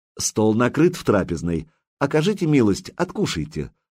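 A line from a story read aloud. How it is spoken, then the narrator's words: Gentle, affectionate. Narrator (Russian): ласково проговорила Сладислава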